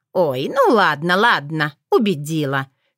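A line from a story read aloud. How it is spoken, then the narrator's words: Old woman's amused snort. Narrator (Russian): хмыкнула бабуля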